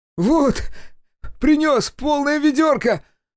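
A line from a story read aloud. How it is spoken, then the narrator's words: Joyful exclamation from behind. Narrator (Russian): Радостно воскликнул кто-то за спиной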